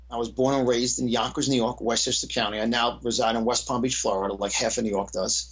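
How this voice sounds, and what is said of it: Distinctive New York accent. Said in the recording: “I obviously have a very distinctive New York accent.”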